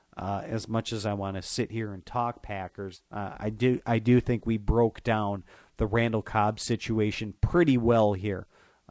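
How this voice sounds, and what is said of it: Worn-out, nasal voice. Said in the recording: “My voice is shot. ... my nasally voice on a day like today ... Hope I will be sounding better 2 days from now.”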